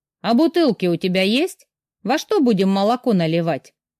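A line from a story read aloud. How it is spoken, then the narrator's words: Plain woman's question. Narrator (Russian): спросила женщина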